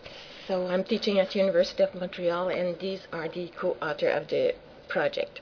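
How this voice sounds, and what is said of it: French accent in English. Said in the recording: “I'm French is my first language, so please excuse my accent”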